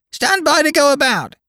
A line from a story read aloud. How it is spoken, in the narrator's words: the parrot would scream